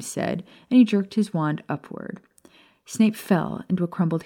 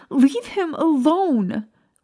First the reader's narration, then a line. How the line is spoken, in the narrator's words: Lily shouted